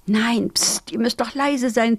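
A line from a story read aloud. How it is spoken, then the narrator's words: Hissed. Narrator (German): zischte Piri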